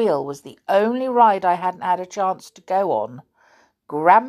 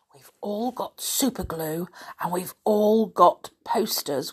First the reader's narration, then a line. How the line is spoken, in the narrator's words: whispered Nishta